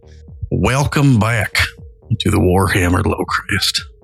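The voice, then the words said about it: Exaggerated Southern US accent. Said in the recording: “Why do you have a shitty Southern accent?”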